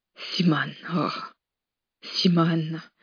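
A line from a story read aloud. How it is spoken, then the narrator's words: Choked breathless whisper. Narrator (French): souffla Tom, la gorge nouée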